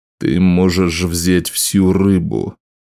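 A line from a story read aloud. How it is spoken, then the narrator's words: Grumbling. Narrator (Russian): проворчал Скорбь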